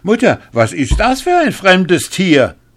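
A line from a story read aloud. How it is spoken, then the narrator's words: Eldest son calling out. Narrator (German): Als der Älteste von den Söhnen ihn sah, rief er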